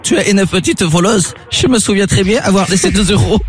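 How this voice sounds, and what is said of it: Strong, well-done put-on accent. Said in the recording (French): “L'accent est fort. ... L'accent était vraiment bien fait. ... Très bien fait.”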